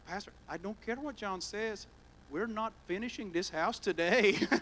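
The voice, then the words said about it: Imitated accent, deliberately poor. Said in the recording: “my accent's horrible”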